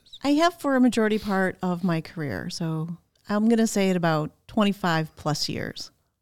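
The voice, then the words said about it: Slight Chicago accent. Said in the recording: “you have a little Chicago accent ... Chicago. Yeah, no, I hear it.”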